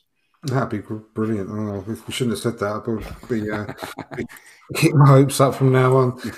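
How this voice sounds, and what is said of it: Voice sounds rough and strained. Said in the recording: “my voice has been terrible this evening”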